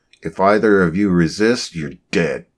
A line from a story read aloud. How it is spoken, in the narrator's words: came the growl through the external speaker suit unit